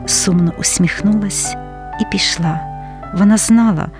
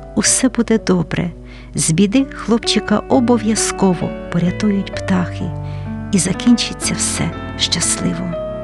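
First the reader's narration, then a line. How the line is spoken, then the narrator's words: Mother gently persuading. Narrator (Ukrainian): мати терпляче лагідно переконувала сина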